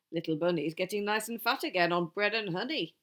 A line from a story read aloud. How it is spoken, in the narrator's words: he chuckled